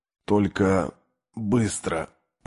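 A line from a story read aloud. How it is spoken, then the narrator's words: Whisper. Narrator (Russian): прошептал парень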